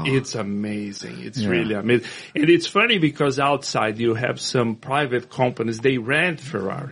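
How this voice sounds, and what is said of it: Foreign accent sounding somewhat Italian. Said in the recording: “your accent almost sounds Italian sometimes. There are certain things that you say that sound Italian”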